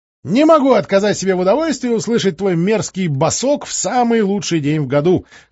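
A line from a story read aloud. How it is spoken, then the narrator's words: Laughing over the phone. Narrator (Russian): хохотал в телефонную трубку Чума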